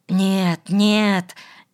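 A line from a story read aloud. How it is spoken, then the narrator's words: Frightened mumbling. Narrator (Russian): испуганно забормотал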